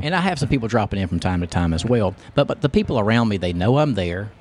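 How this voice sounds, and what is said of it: Long Island-sounding American accent. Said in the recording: “what part of Long Island, based on your accent? ... I get that Long Island accent a lot”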